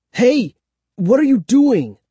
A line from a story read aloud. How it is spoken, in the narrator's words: I cried